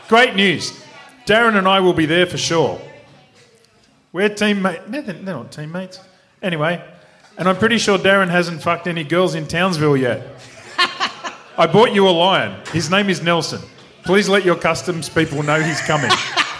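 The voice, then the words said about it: Poor attempt at South African accent. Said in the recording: “Do it in the South African accent ... Every time I try and do an accent, I end up sounding like either Kamal ... Is that South African? ... No.”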